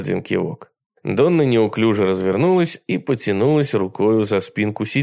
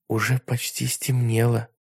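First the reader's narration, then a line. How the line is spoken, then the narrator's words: Whispered. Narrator (Russian): прошептала Сэнди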